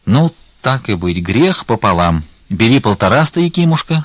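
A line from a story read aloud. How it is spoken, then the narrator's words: Plain. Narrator (Russian): сказал отец Михаил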